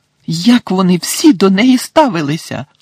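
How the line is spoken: Indignant exclamation. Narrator (Ukrainian): обурено вигукнула Герміона

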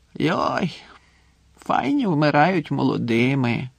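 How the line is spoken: Drunken mumble. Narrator (Ukrainian): бурмотів захмлілий, похилившись на стіл

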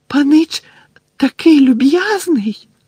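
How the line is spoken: Squeaking. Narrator (Ukrainian): запищав він, а очі його знову наповнилися слізьми

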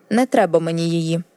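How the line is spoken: Sharp objection. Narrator (Ukrainian): різко заперечила Кейтлін

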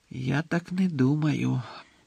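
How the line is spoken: Quiet objection. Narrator (Ukrainian): тихо заперечив Дамблдор

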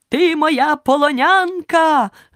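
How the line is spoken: Shouting. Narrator (Ukrainian): крикнув лицар

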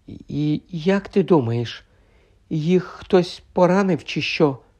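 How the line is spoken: Whisper. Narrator (Ukrainian): прошепотіла Герміона

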